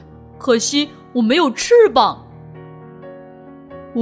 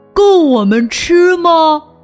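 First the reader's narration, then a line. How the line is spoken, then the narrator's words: Loud shouting. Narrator (Chinese): 本忍不住大声叫道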